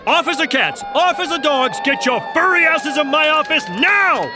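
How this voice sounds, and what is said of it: Shouting. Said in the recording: “I'm shouting”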